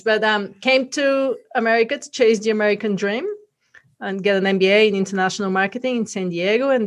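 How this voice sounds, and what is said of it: Bulgarian accent. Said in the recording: “originally from Bulgaria, that's where the accent is from”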